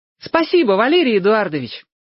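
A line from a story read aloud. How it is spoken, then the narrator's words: Cheerful breathy exclamation. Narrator (Russian): весело выдохнул Сёга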